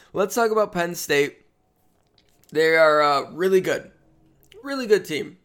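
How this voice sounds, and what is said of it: Strained, rough morning voice. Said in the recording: “Apologize a little bit for my voice... Recording in the morning is so much worse on the old vocal cords than recording at night... I apologize for my voice.”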